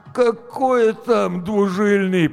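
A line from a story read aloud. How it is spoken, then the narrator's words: Groaning. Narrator (Russian): простонал Гоша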